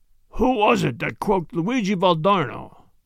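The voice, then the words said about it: Hoarse menacing character voice. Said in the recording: “asked the Italian, hoarsely”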